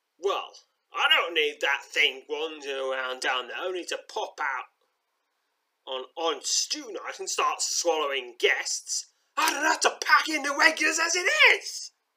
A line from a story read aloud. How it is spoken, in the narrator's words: roars Grutzmo, casting an angry glance at the old maid